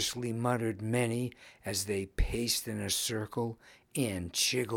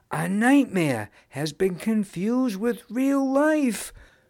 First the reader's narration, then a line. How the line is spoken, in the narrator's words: frantically claimed a gal